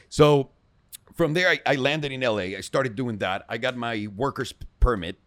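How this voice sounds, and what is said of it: Speaks with a noticeable accent. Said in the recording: “People make fun of my accent all the time.”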